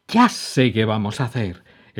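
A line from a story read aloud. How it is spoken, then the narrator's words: Exclaiming. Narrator (Spanish): exclamó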